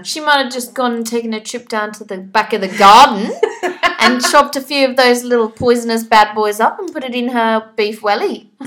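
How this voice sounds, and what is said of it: Put-on Australian accent. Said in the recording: “That was my best Australian accent.”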